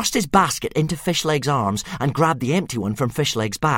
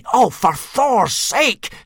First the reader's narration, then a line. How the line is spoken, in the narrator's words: snapped Hiccup